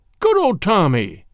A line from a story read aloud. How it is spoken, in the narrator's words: he cried